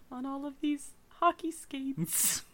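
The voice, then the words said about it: Poor put-on accent. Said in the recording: “That was my accent. ... Not good.”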